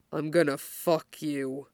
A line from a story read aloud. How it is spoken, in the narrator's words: he almost growls